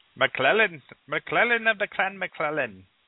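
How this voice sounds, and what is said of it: Put-on native accent for a name. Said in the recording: “what would the native accent for your name be?”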